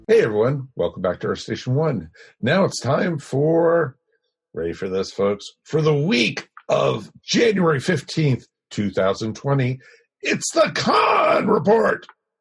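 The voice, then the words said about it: Strained, hoarse voice. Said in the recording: “I'm losing my voice!”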